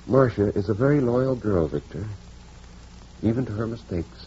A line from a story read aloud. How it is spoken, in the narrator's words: said quietly